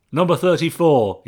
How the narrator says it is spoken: barked

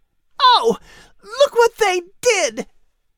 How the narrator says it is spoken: She exclaimed

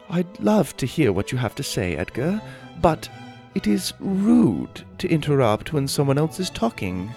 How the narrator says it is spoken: in a British accent said

